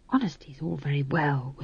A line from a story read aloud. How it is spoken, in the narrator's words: whispered McGrath wretchedly